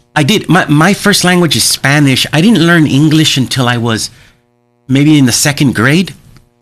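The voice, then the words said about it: Slight sing-songy accent. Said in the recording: “those of you who have good ears can hear my little sing-songy accent”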